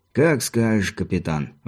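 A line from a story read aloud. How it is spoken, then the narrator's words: Sighing agreement. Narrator (Russian): вздохнув, согласился Мартин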